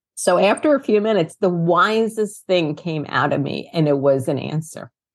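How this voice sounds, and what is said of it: Queens New York accent. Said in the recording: “they're going to hear my Queens and New York accent”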